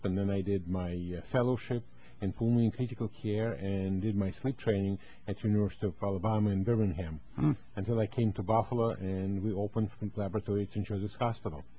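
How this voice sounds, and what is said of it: Russian accent with Southern tinge. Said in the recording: “a Southern accent and Russian accent ... I have the Russian Puerto Rican Southern accent”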